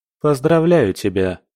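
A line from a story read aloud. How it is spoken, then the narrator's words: Mocking tone. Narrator (Russian): насмешливо произнес Эрик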